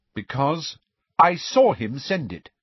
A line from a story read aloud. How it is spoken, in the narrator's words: said Cho angrily